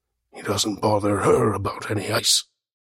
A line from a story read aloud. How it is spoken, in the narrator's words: To no one in particular, Henslow muttered